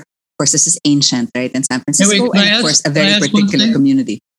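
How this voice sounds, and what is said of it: Accent comes through strongly. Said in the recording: “Why did your accent just kick in very strongly right there?”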